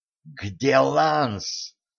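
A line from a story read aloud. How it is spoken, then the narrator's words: Growling. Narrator (Russian): прорычала Кэтран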